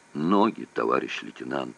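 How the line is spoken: Weak tearful voice. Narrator (Russian): заговорил слабым голосом Сергуненков

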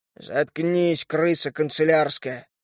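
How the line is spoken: Growling. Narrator (Russian): рыкнул он

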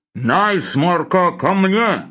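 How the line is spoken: Low muffled drone. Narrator (Russian): Глухо прогудел Лавр Федотович

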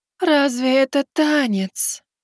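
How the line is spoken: Disappointed drawl. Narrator (Russian): Разочарованно протянула еще одна Кэл

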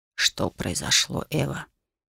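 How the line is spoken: Quiet question. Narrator (Russian): тихо спросил Ксенарс

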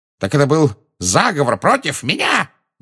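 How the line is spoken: Yelled. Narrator (Russian): завопил он

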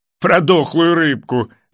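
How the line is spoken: Laughing. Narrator (Russian): засмеялся Энги

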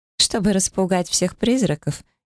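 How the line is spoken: Giggling. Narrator (Russian): хихикнула она

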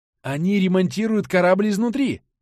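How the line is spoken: Playacting exclamation. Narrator (Russian): воскликнула Настя, играя роль капитана

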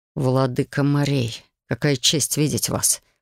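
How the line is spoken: Hissed through teeth. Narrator (Russian): прошипел сквозь зубы Бастиан

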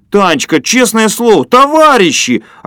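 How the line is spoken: Offended yell from afar. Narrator (Russian): обиженно завопил Фокин через улицу

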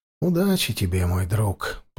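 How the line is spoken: Whisper. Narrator (Russian): прошептал я

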